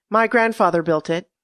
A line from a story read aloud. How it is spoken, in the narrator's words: said Rachel